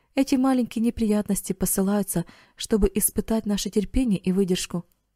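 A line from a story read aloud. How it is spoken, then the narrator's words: Plain. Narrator (Russian): ответил Эрик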